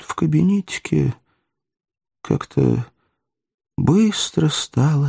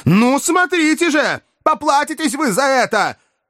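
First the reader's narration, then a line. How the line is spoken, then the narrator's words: Shouted threat. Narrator (Russian): Он еще прокричал какую-то угрозу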